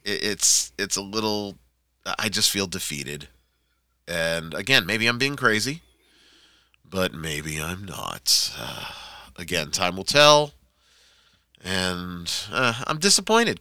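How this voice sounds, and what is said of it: Disappointed, deflated tone. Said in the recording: “Can you hear it in my voice? I'm disappointed.”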